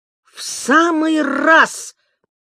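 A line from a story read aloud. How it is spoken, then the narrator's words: Exclaiming. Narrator (Russian): воскликнул Кенуа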